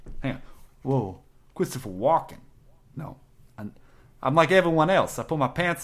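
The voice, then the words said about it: Failed impression in a Boston accent. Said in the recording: “No, I can't. I'm just Boston. It's just a Boston accent.”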